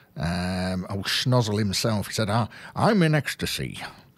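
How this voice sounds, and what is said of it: Jimmy Durante impression, American accent. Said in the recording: “American comedian Jimmy Durante's exclamation ... that's enough of the American accents.”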